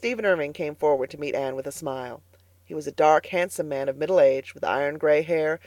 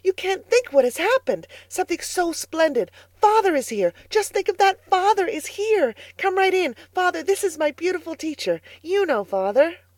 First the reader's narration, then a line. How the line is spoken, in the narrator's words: he cried excitedly